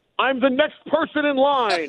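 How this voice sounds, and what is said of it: Yelling loudly. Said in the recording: “why are you yelling like that in a Starbucks?”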